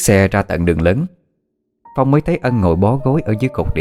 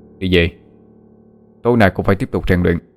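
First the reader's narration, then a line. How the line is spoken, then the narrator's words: Cold. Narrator (Vietnamese): Phong lạnh lùng nói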